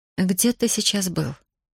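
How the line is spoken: Quiet question. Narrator (Russian): тихо спросила Касьянова

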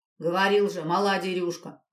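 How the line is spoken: Disgusted grumbling. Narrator (Russian): ворчал десятник с отвращением

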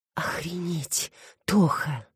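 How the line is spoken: Grateful whisper. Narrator (Russian): прошептала Алекс благодарно

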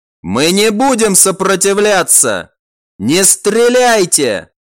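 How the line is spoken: Loud. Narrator (Russian): Макрид громко произнес

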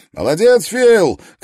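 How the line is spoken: Young man shouting. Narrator (Russian): крикнул высокий, худой молодой человек

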